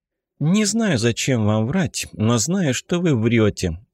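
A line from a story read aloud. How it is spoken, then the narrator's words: Calm reply. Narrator (Russian): спокойно ответила Татьяна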